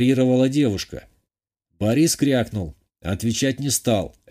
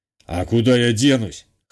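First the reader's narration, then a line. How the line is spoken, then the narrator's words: Snorting. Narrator (Russian): хмыкнул тот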